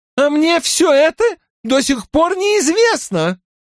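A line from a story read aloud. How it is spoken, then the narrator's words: Squeaky. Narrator (Russian): пропищал Хильдебрандт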